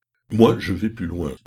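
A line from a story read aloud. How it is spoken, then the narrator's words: Exclaimed. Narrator (French): s'écria Pécuchet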